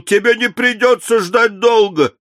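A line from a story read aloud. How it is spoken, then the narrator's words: Shouting. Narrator (Russian): Крикнул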